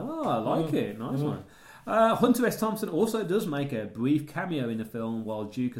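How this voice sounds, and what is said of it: Usual voice. Nothing is said of it.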